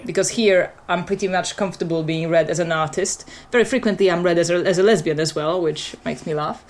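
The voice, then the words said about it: Mixed non-native English accent. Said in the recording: “my accent is quite mixed”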